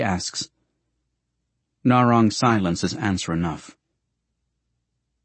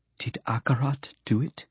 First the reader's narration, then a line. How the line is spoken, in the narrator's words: She whispers fearfully